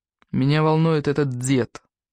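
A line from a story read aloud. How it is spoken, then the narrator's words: Muffled, through clenched teeth. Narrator (Russian): глухо сквозь зубы произнес Анатолий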